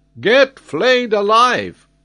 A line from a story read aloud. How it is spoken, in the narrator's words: cried the geographer, with a furious look